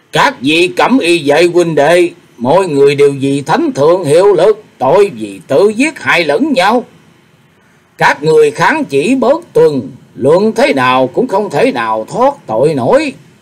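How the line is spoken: Loud call. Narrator (Vietnamese): lớn tiếng kêu lên

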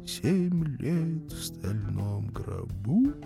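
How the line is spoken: Quiet singing. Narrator (Russian): Тихо запел

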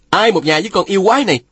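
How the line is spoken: Shout. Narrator (Vietnamese): Phùng Bất Phá quát lên

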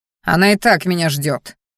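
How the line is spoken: Growled. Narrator (Russian): рыкнул я

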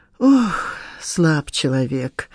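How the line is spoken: Sighing. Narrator (Russian): вздохнула госпожа Лебедева

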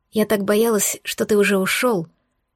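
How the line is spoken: Quiet but resolute. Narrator (Russian): произнесла тихо, но решительно

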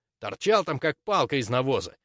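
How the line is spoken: Indignant. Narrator (Russian): возмущенно сообщил друг

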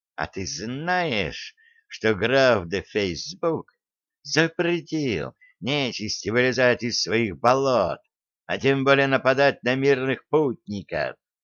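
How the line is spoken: Insinuating question, storyteller. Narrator (Russian): вкрадчиво спросил сказочник

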